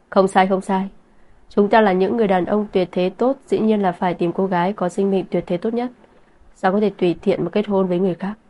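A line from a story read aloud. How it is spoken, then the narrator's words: Loud laughing speech. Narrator (Vietnamese): cười to nói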